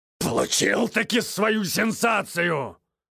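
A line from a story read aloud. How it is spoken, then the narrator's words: Exasperated exclamation. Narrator (Russian): Снова воскликнул в сердцах Вильямсон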